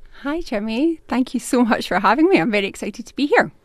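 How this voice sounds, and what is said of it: Scottish Glaswegian accent. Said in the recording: “That's a Scottish accent, isn't it? ... It is indeed a Glaswegian accent.”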